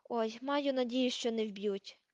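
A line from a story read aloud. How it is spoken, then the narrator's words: Moan. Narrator (Ukrainian): простогнала Герміона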